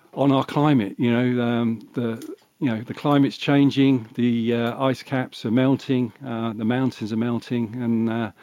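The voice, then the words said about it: British, non-American accent. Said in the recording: “as a lot of our listeners can probably tell from your accent, you are not from the United States ... the UK”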